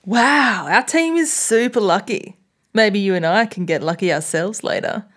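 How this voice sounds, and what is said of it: Slight put-on accent. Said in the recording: “the accent was slightly better too ... I tried not to put one in. ... You did. ... I did”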